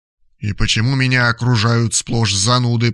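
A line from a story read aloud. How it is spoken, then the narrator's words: Grumbled. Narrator (Russian): проворчал Валерий Панкратович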